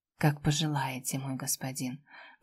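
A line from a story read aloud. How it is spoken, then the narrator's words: Whispered. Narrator (Russian): прошептала ему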